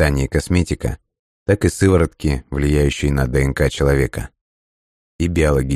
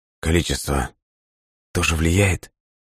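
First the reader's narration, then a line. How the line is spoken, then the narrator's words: Hoarse question. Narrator (Russian): севшим голосом спросил он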